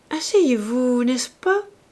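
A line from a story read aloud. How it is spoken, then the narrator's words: Murmured. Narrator (French): murmura-t-elle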